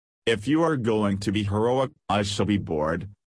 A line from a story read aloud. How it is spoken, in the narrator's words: she said